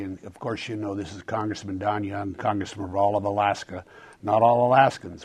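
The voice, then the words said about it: Hoarse, gravelly voice. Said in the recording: “I've lost my voice, so if I sound a little gravelly”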